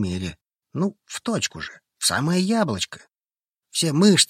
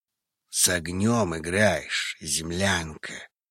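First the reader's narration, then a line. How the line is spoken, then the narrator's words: Hoarse draconic growl. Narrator (Russian): вырвался хриплый рык из горла дракона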